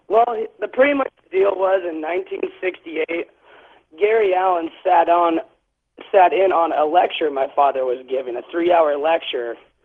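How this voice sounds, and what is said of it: Slightly raspy voice. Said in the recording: “I got the flu earlier this week, and so my voice is going to be a little bit raspy”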